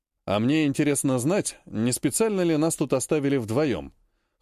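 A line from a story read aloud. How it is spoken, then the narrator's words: Skeptical snort. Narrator (Russian): хмыкнул Вяземский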